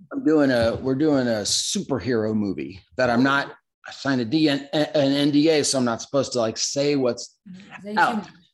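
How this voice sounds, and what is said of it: Strained, worn-out hoarse voice. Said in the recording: “my voice is a little trashed right now ... we do a lot of crazy voices in it. So I'm a little trash right now.”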